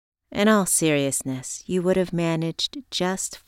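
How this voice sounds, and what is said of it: Usual voice. Nothing is said of it.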